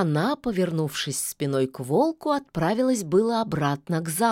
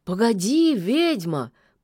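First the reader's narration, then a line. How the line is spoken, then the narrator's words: Almost tenderly asked. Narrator (Russian): почти ласково попросил он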